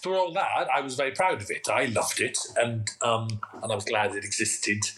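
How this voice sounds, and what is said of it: Welsh accent. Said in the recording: “you're a gorgeous accent. I could listen to it all day. It's like a Radox. No, it's like a Radox bath. I love a bit of the Welsh.”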